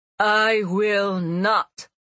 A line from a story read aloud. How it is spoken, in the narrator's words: she answered, her voice throbbing